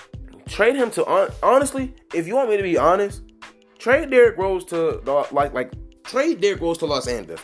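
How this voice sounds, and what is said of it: Excited stuttering, repeated words. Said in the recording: “I'm stuttering. I'm just getting very excited”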